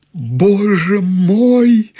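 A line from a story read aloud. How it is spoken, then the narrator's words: Cried out. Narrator (Russian): закричала Марья Гавриловна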